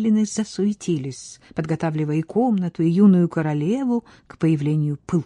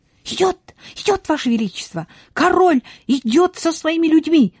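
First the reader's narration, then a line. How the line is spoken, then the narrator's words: Shouting. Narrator (Russian): закричала она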